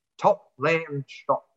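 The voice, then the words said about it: Poor impression drifting into English accent. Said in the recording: “my best Richie Beno impersonation, which was horrible ... No, I'm going English or something. I've lost it”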